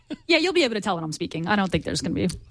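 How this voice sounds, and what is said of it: Impression of Gina. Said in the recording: “my Gina impression ... See, it's a good impression ... It was very good.”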